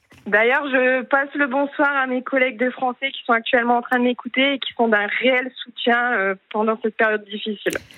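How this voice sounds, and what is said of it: Slight northern French accent. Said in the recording (French): “vous êtes ch'ti? Vous avez un petit accent du Nord que je reconnais. ... j'ai ce petit accent.”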